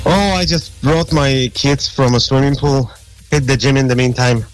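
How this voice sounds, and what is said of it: Polish accent. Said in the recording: “That's an accent that I can't get rid of. It's from Poland. ... Polish ... you haven't lost your accent at all.”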